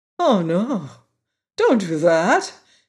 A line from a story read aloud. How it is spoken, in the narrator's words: exclaimed the Tin Woodman